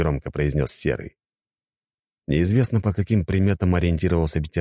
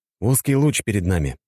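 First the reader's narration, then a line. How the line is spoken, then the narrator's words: Plain. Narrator (Russian): ответил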